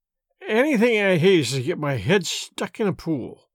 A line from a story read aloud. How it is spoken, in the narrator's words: mumbled Miss Baedeker